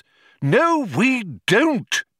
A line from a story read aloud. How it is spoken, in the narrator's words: exclaimed Magic Thighs in irritation